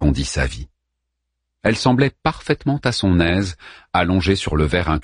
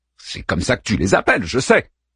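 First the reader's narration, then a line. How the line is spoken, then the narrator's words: Curt retort. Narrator (French): répliqua sèchement Daeman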